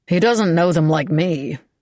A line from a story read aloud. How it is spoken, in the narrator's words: Beau said grimly